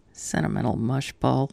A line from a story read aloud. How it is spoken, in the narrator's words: he mutters with a grin